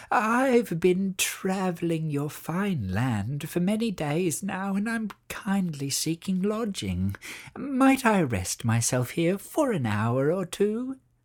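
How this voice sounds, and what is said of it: Humble old witch voice. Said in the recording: “said the witch in her most humble voice.”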